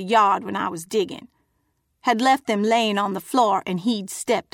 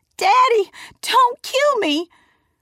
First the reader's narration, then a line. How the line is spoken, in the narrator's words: I screamed